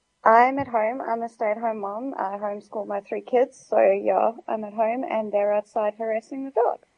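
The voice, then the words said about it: Tired, worn-out voice. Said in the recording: “why you sound so tired? ... you've got that I lost my patience ages ago sound in your voice.”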